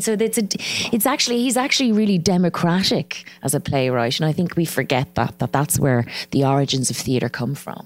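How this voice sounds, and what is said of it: Irish accent. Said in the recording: “my accent, you know, the Irish accent”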